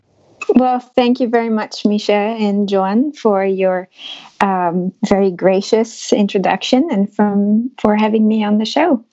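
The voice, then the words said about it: French accent. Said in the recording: “my French accent ... your beautiful accent”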